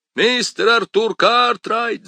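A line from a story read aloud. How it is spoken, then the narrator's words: Yelling. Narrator (Russian): завопил Мейсон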